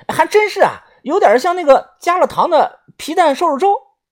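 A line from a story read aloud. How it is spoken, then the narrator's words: Loud. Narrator (Chinese): 豆芽仔大声的说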